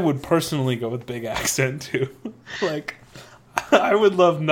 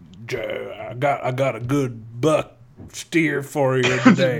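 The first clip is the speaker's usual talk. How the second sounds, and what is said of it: Exaggerated Southern businessman accent. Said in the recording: “like a really big... like Southern businessman accent... Like, the guy that wears, like, the white cowboy outfit... That says sells the cattle at the cattle auction.”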